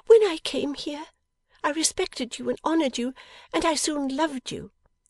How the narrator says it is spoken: cried Bella

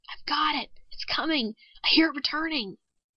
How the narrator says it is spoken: Suddenly the technician whispered

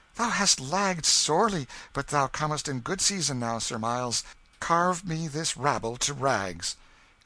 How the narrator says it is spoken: The king with flushed cheeks and sparkling eyes, exclaiming

